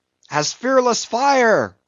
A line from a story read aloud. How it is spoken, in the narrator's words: cried Stubb